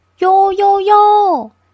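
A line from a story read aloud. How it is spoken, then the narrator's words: Shouting from afar. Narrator (Chinese): 从桅杆瞭望台上大叫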